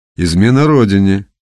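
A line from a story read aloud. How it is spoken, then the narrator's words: Dismissive snort. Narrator (Russian): хмыкнул председатель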